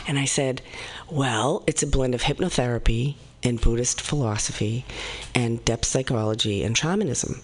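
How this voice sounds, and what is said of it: Speaks with a noticeable accent. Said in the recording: “my accent, right? I will never lose my accent”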